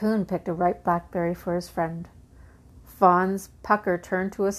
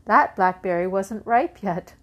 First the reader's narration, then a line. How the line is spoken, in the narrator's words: chuckled Raccoon